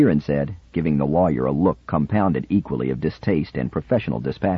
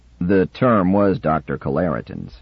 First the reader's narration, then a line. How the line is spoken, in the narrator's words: said Shirin stiffly